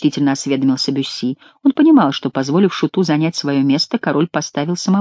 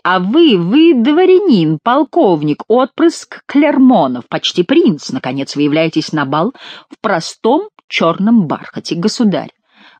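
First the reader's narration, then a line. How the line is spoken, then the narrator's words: Loud. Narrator (Russian): громко сказал Бюсси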